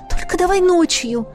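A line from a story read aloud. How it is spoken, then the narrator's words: Hurried exclamation. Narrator (Russian): Торопливо воскликнула Тесса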